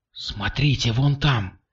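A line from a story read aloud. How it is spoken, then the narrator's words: Whisper. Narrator (Russian): прошептала она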